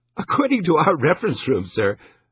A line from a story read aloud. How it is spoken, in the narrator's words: she said in a giggling voice